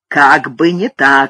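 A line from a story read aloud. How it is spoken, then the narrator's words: Barked. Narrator (Russian): рявкнул он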